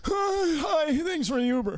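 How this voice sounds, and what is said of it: Imitates an old man's voice. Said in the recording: “I'm gonna do an impression now ... this old guy”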